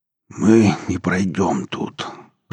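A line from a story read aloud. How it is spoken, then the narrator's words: Hoarse rasp. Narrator (Russian): прохрипел Семецкий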